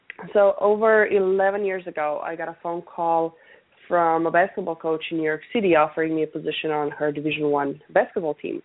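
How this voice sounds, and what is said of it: Noticeable accent. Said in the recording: “some of the listeners might be picking up on the accent. Today is one of those days when it's pretty apparent.”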